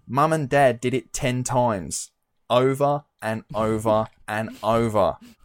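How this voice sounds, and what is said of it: Put-on Australian accent. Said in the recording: “Fucking Australian accent”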